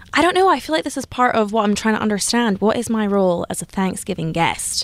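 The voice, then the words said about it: Scottish accent. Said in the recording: “has an accent originally from Scotland”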